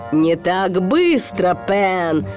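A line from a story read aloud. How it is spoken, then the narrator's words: Growl. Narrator (Russian): прорычал Крюк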